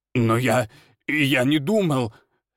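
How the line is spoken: Babbling. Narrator (Russian): лепетал староста

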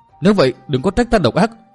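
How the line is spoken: Shouting. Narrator (Vietnamese): Thiếu nữ hét lên

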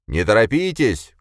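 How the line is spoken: Shouting voices. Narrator (Russian): кричали

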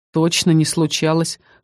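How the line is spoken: Short snort. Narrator (Russian): хмыкнул Дик

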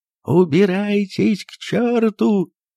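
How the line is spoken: Tearful shout. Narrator (Russian): крикнул он плачущим голосом

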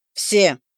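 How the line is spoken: Stern echo. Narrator (Russian): Таким же строгим тоном вторил наш мэтр

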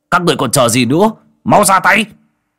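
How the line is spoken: Frenzied roar. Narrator (Vietnamese): Thái Tử Du vô cùng điên cuồng gầm lên

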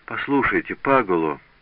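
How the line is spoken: Sad voice. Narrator (Russian): ответила Катерина таким печальным голосом

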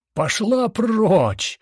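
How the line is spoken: Full-throated yell. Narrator (Russian): заорал он во все горло

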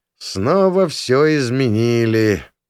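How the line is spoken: Perfunctory grumble. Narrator (Russian): пробурчал я для проформы

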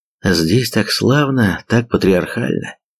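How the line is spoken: Sighing. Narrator (Russian): Он вздохнул

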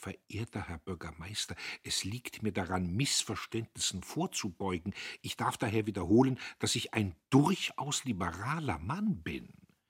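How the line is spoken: Trembling whisper. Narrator (German): er flüsterte bebend

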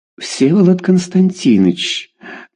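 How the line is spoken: Cooing. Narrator (Russian): проворковала Люся секретарша

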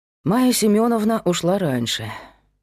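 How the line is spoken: Sighing. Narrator (Russian): вздохнул Павел

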